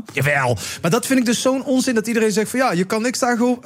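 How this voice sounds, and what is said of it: Put-on Limburg Dutch accent. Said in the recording (Dutch): “Waarom doe ik trouwens een Limburgs accent?”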